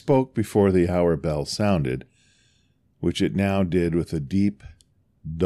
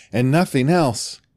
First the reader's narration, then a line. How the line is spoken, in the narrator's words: said Scrooge triumphantly